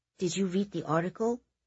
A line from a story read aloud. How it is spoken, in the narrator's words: Kitty said quietly